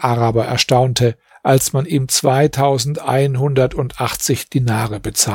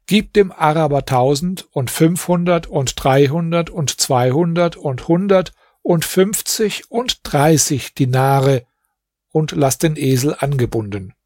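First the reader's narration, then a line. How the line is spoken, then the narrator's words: Calling out. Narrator (German): rief und sagte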